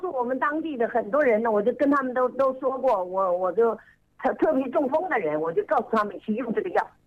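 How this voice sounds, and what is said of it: Regional Chinese accent. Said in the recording (Chinese): “我听你口音，你是哪里人呢？ ... 湖北安陆市的人”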